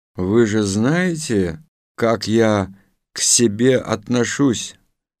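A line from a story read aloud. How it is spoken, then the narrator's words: Calm. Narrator (Russian): спокойно сказал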